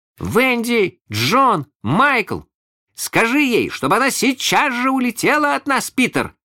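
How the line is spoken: Three shouting in unison. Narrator (Russian): закричали все трое разом

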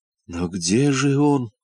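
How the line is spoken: Dejected voice. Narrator (Russian): упавшим голосом спросил муфта

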